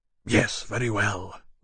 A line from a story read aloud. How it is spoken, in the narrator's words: Lawrence said harshly